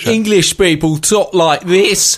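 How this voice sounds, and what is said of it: Put-on Cockney London accent. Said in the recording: “No, that's a London accent... that's a London-specific accent... Well, that's a Cockney accent.”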